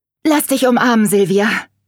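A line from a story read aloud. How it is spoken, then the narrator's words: Calling out. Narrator (German): rief Veronika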